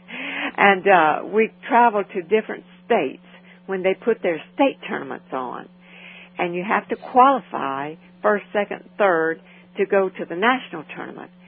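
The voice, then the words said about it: Louisiana accent. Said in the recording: “I'm from Louisiana, as you can guess, I'm sure, by my accent.”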